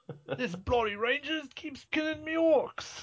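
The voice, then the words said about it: Put-on Cockney accent. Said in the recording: “orcs have Cockney accents? ... pretty much.”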